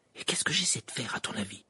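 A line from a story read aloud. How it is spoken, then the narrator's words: Whispering. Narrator (French): chuchota-t-elle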